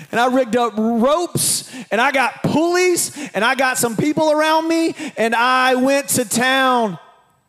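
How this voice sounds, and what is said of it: Preacher-like sermon delivery. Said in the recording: “I sound like a preacher”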